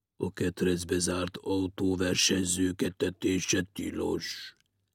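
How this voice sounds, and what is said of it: Deep, disguised voice. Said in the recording (Hungarian): “Felelte mély, elváltoztatott hangon”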